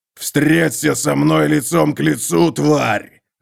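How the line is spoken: Roaring. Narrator (Russian): взревел Готрек

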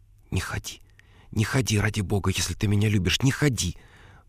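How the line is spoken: Whisper. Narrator (Russian): прошептала Беатрис

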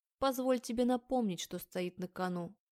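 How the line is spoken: Plain. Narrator (Russian): говорит муж

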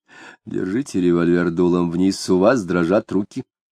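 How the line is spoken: Low voice. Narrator (Russian): сказал вполголоса

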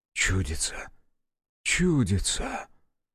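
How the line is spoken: Whispering. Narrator (Russian): зашептал Фома

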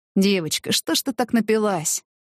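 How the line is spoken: Sighed. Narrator (Russian): вздохнул Артур Валерьевич

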